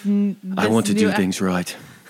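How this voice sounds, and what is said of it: Put-on accent for a character. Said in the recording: “This new accent”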